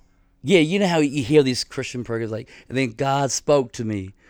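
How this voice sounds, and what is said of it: Usual voice. Nothing is said of it.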